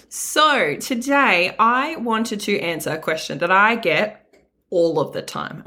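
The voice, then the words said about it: Slightly rough, sore-throat voice. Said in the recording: “my voice sounds a little bit funny today... I may sound a little bit dodgy because my throat is not my best friend right now”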